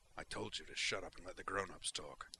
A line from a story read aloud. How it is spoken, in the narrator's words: Zaid growled